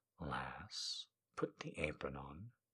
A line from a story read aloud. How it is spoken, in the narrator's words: he said softly